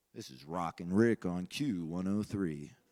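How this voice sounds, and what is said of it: Radio DJ voice. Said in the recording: “I got that radio voice here.”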